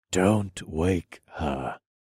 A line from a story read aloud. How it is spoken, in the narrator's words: I whispered